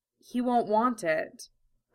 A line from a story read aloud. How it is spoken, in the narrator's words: Al said quietly